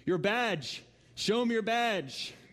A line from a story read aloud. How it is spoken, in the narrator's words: The old rancher yelled at the top of his lungs